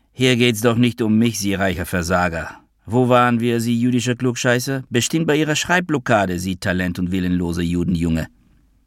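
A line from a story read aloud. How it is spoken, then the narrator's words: Loud, annoyed. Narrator (German): sagte der ungarische Psychonationalsozialist laut und genervt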